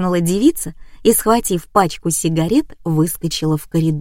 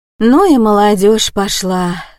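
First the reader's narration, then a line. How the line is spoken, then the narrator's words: Sighed. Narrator (Russian): вздохнула тетка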